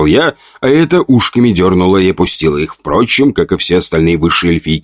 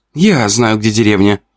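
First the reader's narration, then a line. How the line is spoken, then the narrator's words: Young elf woman exclaiming. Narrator (Russian): воскликнула девушка, лесная эльфийка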